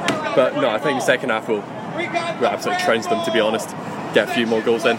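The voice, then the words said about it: Speaks with a non-American accent. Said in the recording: “with this accent”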